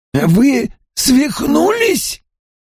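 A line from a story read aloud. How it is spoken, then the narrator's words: Hoarse babble. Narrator (Russian): хрипло пролепетал Рэхэм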